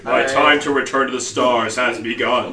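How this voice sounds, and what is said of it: Deep, celestial character voice. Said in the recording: “the most, like, celestial, sentient voice ... A deep voice.”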